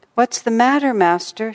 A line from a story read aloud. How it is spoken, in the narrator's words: she inquired anxiously